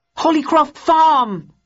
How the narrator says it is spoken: Bowden shouted into the wireless

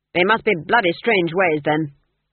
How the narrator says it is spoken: snapped Verence

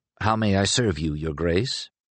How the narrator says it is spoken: murmured

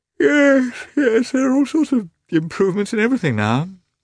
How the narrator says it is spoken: said Oblonsky, with a moist and beautiful yawn

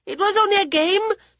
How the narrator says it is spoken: the boy wailed

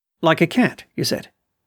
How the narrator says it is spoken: interrupted, quickly catching him up

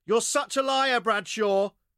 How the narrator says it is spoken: shouted Marnie

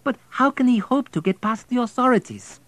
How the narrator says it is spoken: pleaded

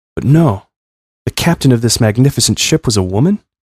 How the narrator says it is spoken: I sighed

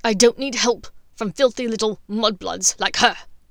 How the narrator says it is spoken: Snape spat out

